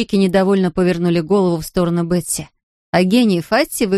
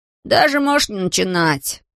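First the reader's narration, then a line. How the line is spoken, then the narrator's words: Gloomy interruption. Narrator (Russian): мрачно оборвал его Ларри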